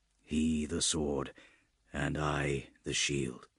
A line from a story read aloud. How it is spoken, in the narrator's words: he muttered